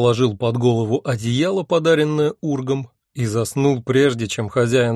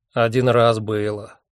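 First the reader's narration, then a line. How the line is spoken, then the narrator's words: Gloomy. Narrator (Russian): мрачно сказал Мэсэн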